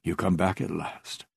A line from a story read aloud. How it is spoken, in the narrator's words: he whispered